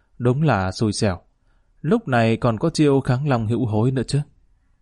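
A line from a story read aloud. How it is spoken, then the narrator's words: Sighing, pensive mutter. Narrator (Vietnamese): Lý Kỳ thở dài một hơi, trầm tư chốc lát lẩm bẩm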